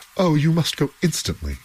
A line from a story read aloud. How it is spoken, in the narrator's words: cried the two men